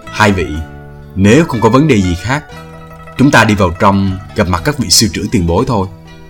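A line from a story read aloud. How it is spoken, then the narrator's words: Softly. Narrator (Vietnamese): Thường Tiễn bèn khẽ nói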